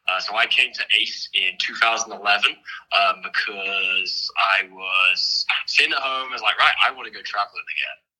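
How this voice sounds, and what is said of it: Noticeable non-American accent. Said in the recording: “as you can probably tell, I have a bit of an accent.”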